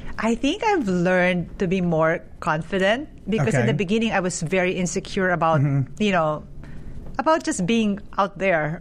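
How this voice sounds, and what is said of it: Foreign accent in English. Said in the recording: “especially being here in America. I have an accent.”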